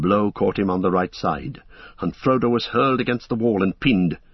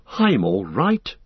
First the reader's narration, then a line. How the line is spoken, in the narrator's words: gasped Frodo